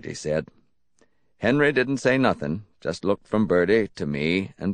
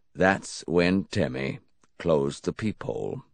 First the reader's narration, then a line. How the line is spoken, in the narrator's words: Henry finished softly